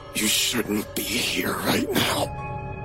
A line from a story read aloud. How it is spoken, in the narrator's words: whispered, voice tight like he was being strangled